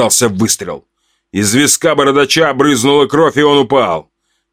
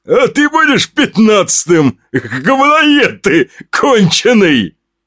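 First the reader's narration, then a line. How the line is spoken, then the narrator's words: Guffawing. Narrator (Russian): Хохотнул бородач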